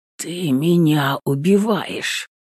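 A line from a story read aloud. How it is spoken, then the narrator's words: Hoarse. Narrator (Russian): Хрипит он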